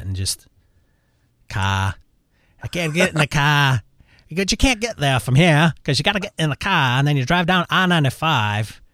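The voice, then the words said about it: Put-on Connecticut accent. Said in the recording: “I should try to incorporate my grandmother's Connecticut accent”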